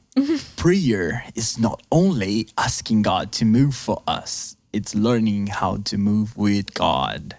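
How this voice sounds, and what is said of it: Dramatic prophetic preacher-style delivery. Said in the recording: “Now with the prophetic accent.”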